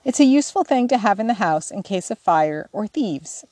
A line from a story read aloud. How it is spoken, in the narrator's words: observed, amid the laughter of the girls